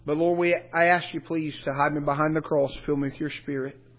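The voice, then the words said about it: Weak, worn-out voice. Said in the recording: “my voice is weak from camp this week”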